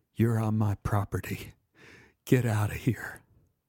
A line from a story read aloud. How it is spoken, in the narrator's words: He whispered